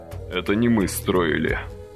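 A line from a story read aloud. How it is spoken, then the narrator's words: Muffled speech. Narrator (Russian): глухо проговорил Василий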